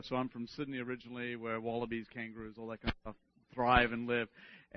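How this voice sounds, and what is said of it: Australian accent. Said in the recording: “if you can't pick up my accents from Australia”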